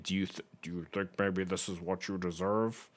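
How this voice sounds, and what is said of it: Imitates another person's voice. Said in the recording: “That was my best impression”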